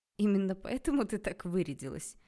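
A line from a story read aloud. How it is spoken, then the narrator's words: Brief laugh. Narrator (Russian): коротко рассмеялся Анатолий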